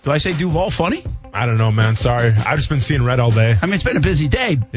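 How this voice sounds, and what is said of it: Rhode Island accent. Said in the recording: “we got to get our guy Brent some help with pronouncing Duval ... I got a Rhode Island accent”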